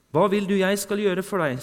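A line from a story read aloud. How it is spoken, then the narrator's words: Plain question. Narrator (Norwegian): spurte Jesus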